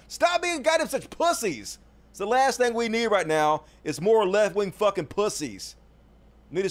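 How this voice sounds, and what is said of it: Usual voice. Nothing is said of it.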